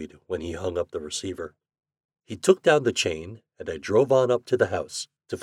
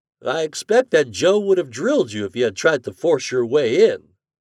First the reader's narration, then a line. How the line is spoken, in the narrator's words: he remarked cheerfully